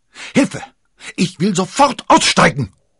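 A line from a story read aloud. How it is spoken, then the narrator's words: Screaming. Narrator (German): schrie sie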